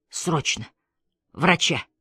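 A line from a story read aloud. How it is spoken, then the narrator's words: Hoarse wheeze. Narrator (Russian): прохрипел он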